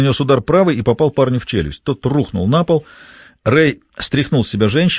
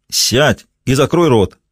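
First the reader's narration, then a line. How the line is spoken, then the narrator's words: Sharp shout. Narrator (Russian): прикрикнул на нее Рэй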